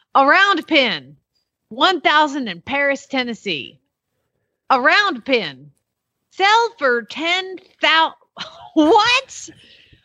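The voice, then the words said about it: Put-on Tennessee accent. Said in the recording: “we got to go Tennessee accent.”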